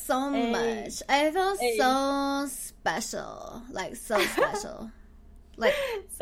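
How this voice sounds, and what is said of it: Valley Girl voice. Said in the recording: “this Valley Girl voice”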